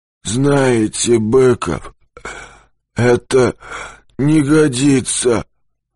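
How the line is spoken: Hoarse but calm. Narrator (Russian): Голос сиплый, но спокойный

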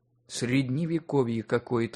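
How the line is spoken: Sighing. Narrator (Russian): вздохнула Полина

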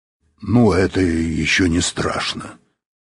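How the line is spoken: Grumble. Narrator (Russian): проворчал Быков

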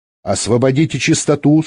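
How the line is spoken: Stern female voice. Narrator (Russian): строго сказала женский голос

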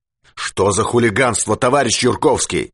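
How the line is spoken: Barking. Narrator (Russian): рявкнул он

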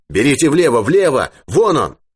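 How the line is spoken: Shout. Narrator (Russian): Юрковский крикнул

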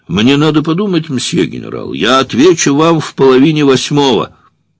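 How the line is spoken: Shouted. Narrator (Russian): турок крикнул

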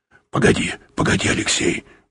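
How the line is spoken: Muttering. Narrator (Russian): пробормотал Юрковский

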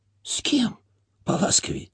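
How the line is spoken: Surprised whisper. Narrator (Russian): шепотом удивился Анисий

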